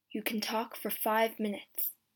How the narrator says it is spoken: the guard said quietly

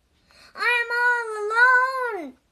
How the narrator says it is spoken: screamed Toad

